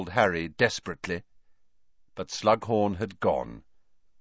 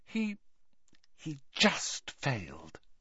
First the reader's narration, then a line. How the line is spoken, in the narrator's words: whispered Hermione